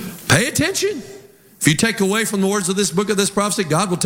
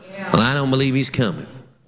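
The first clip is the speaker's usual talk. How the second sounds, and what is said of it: Mocking, scoffing character voice. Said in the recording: “talking like a mocker”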